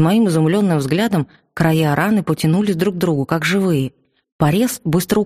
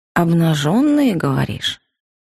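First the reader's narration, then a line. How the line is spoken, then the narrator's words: Thoughtful drawl. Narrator (Russian): задумчиво протянула я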